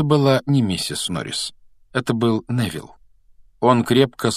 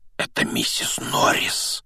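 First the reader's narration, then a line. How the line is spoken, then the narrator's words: Breathless exclamation. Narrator (Russian): выдохнул Рон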